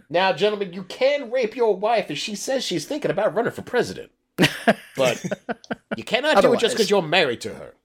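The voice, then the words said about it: Put-on Kentucky accent. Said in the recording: “I'm clearly doing a Kentucky accent, by the way. ... I thought it was pretty good.”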